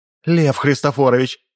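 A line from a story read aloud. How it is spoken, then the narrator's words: Pleading. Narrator (Russian): взмолилась гражданка Гаврилова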